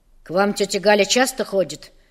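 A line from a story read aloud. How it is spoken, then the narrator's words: Stern question. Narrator (Russian): строго спросил Федор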